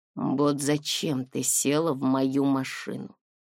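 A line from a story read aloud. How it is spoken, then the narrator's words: Calm question. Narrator (Russian): спокойно спросил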